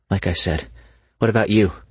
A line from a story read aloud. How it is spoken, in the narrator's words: she asked, trying desperately to change the subject